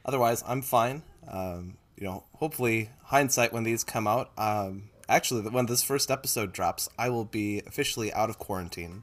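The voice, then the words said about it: Congested, stuffy voice. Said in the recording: “I sound a little congested, it's because I am.”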